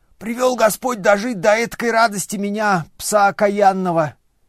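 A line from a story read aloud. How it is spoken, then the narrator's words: Wailing, half crying, half laughing. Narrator (Russian): завопил, не то плача, не то смеясь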